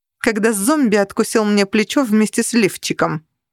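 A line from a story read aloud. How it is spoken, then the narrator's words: Snapping. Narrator (Russian): огрызнулась я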